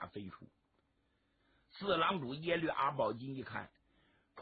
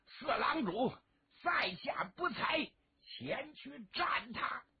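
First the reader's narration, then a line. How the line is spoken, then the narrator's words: Shout. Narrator (Chinese): 上垂手有人喊了一声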